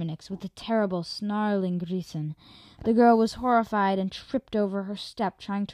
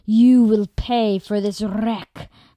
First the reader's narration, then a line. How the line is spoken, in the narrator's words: growled Armonix